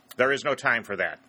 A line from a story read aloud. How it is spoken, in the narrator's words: he said sharply